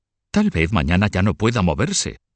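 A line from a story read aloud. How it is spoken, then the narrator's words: Exclaimed. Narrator (Spanish): exclamó Mahó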